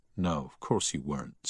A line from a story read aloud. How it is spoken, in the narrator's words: said Harry